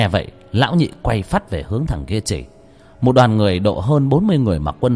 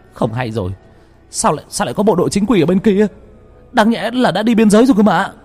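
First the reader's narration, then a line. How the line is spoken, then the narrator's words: Sudden cry. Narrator (Vietnamese): Bỗng một thằng kêu lên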